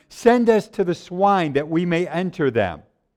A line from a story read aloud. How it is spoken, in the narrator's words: So all the demons begged him, saying